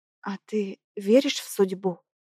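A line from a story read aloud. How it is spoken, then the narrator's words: Near whisper, faltering voice. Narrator (Russian): Спрашиваю почти шепотом, потому что голос подводит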